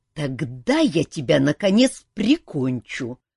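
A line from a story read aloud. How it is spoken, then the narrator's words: Gloating snap. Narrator (Russian): злорадно огрызнулся Кантор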